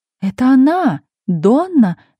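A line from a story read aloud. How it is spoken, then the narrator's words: Several voices exclaiming. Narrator (Russian): воскликнули несколько голосов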